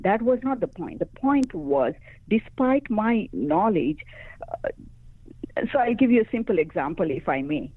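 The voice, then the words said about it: Speaks English with an accent. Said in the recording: “I do have an accent ... I was very good and I am very good at communicating in English, but I do have an accent.”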